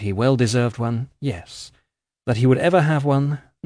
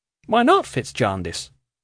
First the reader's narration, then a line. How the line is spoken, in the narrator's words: she asked rather sharply